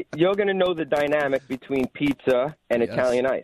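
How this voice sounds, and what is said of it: New York accent. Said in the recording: “I lost the New York accent ... like a flash, it all came back ... I'm back to square one with the accent ... Don't even think about saying you lost your accent.”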